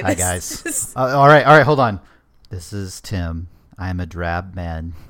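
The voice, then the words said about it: Flat, drab NPR-style voice. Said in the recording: “you're supposed to say hello in a normal voice ... if you make a voice when you're introducing ... That's your NPR voice. Everybody has an NPR voice, and that's yours.”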